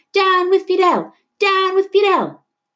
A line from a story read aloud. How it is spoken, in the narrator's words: people yelling